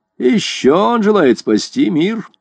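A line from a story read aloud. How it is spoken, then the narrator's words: Mocking. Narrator (Russian): насмешливо сказал Невилл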